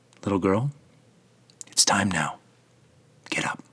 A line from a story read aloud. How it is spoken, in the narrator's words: he whispers into her ear